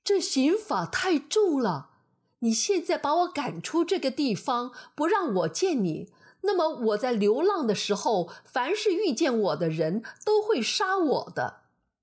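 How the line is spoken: Pleading. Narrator (Chinese): 该隐哀求道

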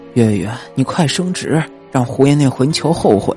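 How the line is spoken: Old woman muttering. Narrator (Chinese): 老太太嘀咕

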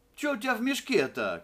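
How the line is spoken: Shout. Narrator (Russian): кричал Евлампина

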